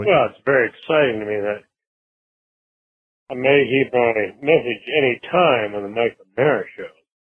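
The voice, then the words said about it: English accent, slow relaxed speech. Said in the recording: “you can tell from his accent, he's probably calling from England... They're much slower... Very relaxed.”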